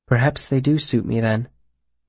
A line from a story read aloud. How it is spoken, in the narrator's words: Denna said softly